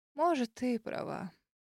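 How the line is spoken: Tired drawl. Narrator (Russian): протянула миссис Джоан, устало

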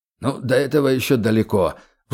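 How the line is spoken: Sighing. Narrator (Russian): вздохнул Скриптор

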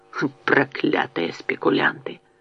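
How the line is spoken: Muttering. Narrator (Russian): бормотал

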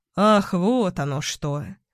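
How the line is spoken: Sighing, slightly frowning. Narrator (Russian): Солодилов вздохнул, слегка нахмурившись

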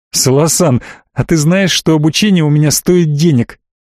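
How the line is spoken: Barely speaking through laughter. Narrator (Russian): Еле смог выговорить это, все еще смеясь

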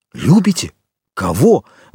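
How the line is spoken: Exclamation. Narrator (Russian): воскликнул Монте-Кристо

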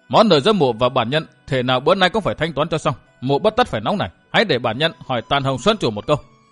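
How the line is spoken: Cold stare, speaking. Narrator (Vietnamese): đưa mắt lạnh lùng nhìn Khổng Bố Mỗ nói

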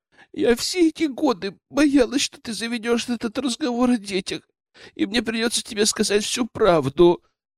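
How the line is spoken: Sobbing. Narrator (Russian): рыдала Нина

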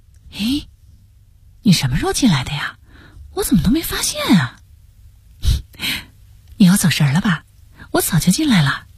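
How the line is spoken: Surprised quiet question. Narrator (Chinese): 吴霞才一脸诧异的小声询问

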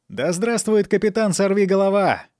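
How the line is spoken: Exclaimed. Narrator (Russian): воскликнул Фанфан

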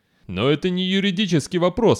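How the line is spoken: Exclaiming. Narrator (Russian): воскликнул Вардан

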